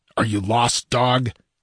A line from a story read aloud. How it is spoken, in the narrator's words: demanded Valerius harshly